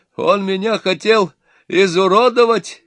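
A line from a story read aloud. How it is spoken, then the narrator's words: Shouting. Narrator (Russian): кричал отец невесты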